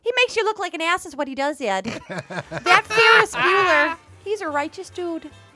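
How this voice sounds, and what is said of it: Imitates another person's voice. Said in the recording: “she became my first impersonation ... That is dead nuts”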